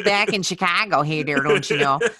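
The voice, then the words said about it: Exaggerated Chicago accent. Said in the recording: “That's my real accent ... the Chicago accent”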